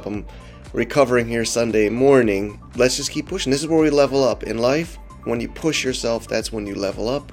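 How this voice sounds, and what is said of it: Voice sounds a little messed up. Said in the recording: “my voice is a little messed up”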